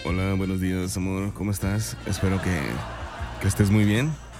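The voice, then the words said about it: Sick, deep man's voice. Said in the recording (Spanish): “Yo ando muy enfermo, chamacos. Escúchenme nada más mi voz... mi voz de hombre, verás cómo la cargo”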